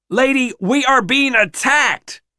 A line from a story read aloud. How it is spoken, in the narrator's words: Rennett yells as they tussle over the rifle